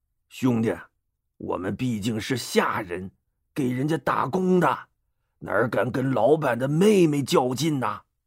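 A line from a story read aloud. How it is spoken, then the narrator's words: Muttering. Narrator (Chinese): 丁奉、徐盛两人一嘀咕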